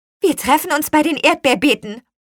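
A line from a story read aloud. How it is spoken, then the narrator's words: Witch calling out. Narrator (German): rief die Apfelhexe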